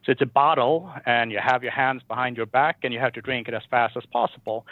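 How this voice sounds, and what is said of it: Swedish accent. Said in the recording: “I'm from Sweden, as you maybe can hear from the accent.”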